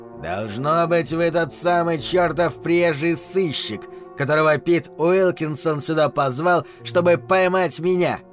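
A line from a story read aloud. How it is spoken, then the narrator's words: Man's growl. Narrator (Russian): прорычал мужчина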